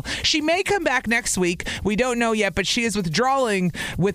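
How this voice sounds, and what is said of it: Southern American accent. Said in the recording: “Listen to my southern accent kicking in right there... She can't get rid of the accent”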